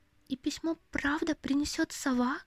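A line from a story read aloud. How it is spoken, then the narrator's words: Quiet question. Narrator (Russian): тихо спросила Лили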